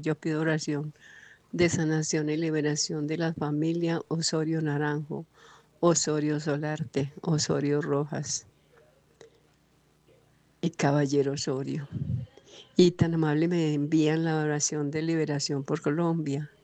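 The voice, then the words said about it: Pleasant radio-announcer-like voice. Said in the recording (Spanish): “Tan bonita voz, se le escuchó muy bonita ... Tiene una voz muy bonita ... Tiene voz de locutora.”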